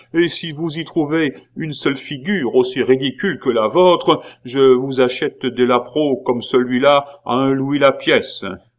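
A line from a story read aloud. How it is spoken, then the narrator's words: Exclaiming. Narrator (French): s'écria-t-il à son tour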